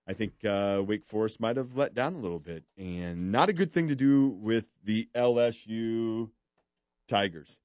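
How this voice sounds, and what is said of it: Polished professional radio voice. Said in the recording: “You have a very nice radio voice. ... You sound very professional.”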